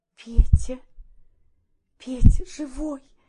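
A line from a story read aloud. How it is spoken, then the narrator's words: Soft whisper. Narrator (Russian): тихо прошептала Парамоновна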